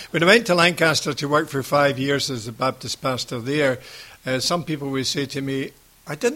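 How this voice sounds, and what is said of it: Scottish Ayrshire accent. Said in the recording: “We've both got an Ayrshire accent.”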